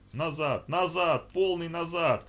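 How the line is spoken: Shouting. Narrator (Russian): кричал Геннадий

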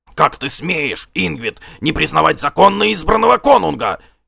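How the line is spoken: Shout. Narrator (Russian): крикнул Гримкель Черная Борода

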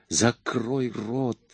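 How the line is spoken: Furious hiss. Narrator (Russian): с яростью зашипела

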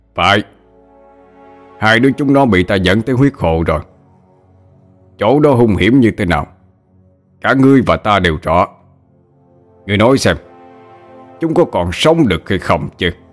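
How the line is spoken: Laughing loudly. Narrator (Vietnamese): quay sang huyết hoàng mà cười lớn

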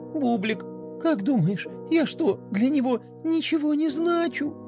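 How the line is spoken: Sobbing. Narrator (Russian): Пинки всхлипнула

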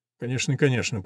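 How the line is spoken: Whispered. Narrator (Russian): прошептал он

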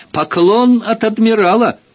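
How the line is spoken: Triumphant shout. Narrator (Russian): крикнул, как подобает победителю

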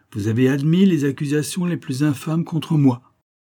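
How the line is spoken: Exclaimed. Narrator (French): s'écria

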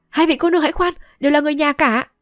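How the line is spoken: Hurried shout. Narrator (Vietnamese): vội quát

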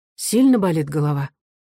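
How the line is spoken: Caring, gentle. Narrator (Russian): она уже заботливо и ласково спрашивала

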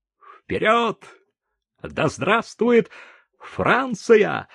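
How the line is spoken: Joyful sergeant's exclamation. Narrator (Russian): радостно воскликнул сержант

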